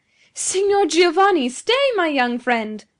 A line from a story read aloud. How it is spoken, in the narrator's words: cried he